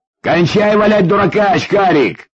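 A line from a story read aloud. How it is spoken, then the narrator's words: Shouting. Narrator (Russian): закричал Витя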